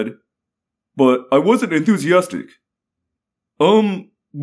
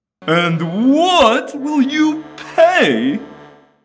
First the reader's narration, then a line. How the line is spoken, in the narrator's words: demanded, to the sound of eager whining